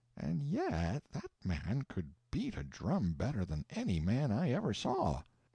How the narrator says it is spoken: he would say dreamily, and as if to himself

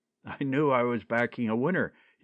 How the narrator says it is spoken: he cried exultingly

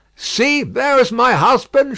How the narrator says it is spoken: she cried

